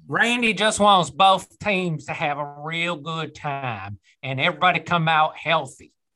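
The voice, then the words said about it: Put-on Southern accent. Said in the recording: “Just did a Southern accent. ... That was really good.”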